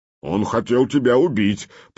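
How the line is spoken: Deep bass, foreign language. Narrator (Russian): по-нурмански пробасил один из скандинавов

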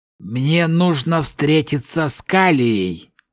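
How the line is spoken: Hoarse rasp. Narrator (Russian): прохрипел он

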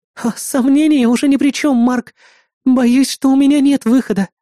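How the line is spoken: Sobbing reply. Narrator (Russian): всхлипнув, ответила актриса

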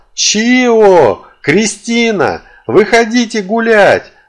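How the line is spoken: Full-force yell. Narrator (Russian): что из силы заорал

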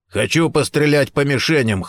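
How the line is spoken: Hoarse shout, big man. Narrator (Russian): хрипло выкрикнул в ответ Гордон, крупный, плотный, бритоголовый мужчина

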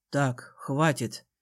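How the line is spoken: Quiet growl. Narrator (Russian): тихо рыкнул Конор

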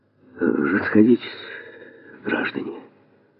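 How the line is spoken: Tired, quiet, shaken. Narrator (Russian): устало, все-таки страха натерпелся, и тихо сказал

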